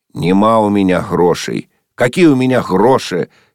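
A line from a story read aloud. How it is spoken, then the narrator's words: Old man shouting angrily. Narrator (Russian): сердито закричал старик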